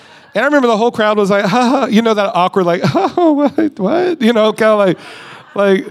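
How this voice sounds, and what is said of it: Usual voice. Nothing is said of it.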